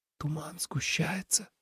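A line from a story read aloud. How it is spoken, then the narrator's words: Whisper. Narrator (Russian): прошептал Тоби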